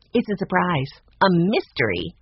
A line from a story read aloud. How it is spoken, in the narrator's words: said Brianna